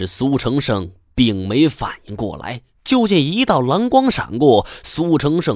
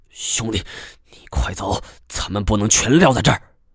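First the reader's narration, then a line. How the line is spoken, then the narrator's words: Furious. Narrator (Chinese): 苏成昌是愤怒之极，对着苏成安道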